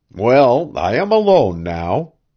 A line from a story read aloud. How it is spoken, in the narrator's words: Devant nodded cheerfully